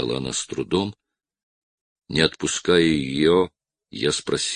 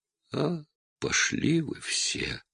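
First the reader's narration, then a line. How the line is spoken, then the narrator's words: Whisper. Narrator (Russian): она только прошептала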